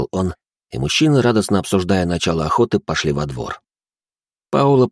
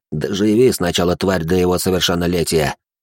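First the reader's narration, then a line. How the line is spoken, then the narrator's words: Hiss. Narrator (Russian): прошипел он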